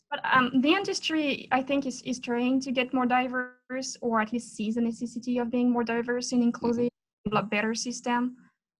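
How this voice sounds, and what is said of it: Fairly strong foreign accent. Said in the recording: “My accent is still fairly strong.”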